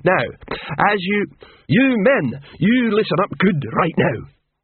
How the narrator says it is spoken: Detritus boomed

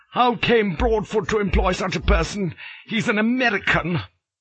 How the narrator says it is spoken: Harding exclaimed in irritation

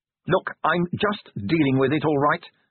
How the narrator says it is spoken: snapped Angua

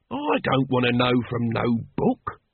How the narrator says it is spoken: growled Nobby

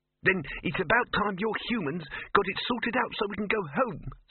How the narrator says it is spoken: snapped the mouse

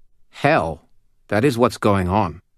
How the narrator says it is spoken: The little old knight snorted and said

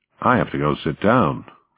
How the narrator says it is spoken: the American said

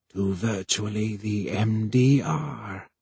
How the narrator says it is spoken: whispered Voy

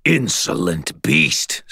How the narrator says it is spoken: snarled the Red King

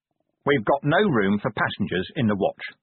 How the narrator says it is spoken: he said

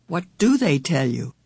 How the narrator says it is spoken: Meg choked down a sob, managed to speak over it

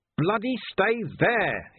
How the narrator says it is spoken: he yelled

